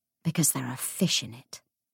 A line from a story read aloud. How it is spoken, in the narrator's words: murmured Anna